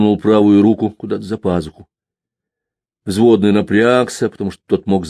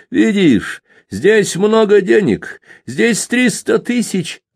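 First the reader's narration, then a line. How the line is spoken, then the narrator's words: Shout. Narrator (Russian): крикнул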